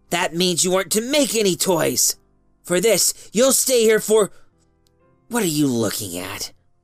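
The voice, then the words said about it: Hissing, menacing voice. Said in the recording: “she said in a hissing voice.”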